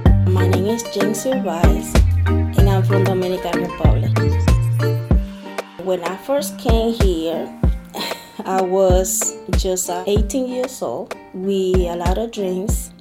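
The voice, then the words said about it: Dominican Spanish-accented English. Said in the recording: “I'm very self-aware about my accent ... he got a beautiful accent like me”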